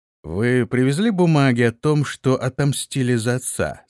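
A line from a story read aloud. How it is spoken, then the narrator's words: Plain. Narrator (Russian): спросил он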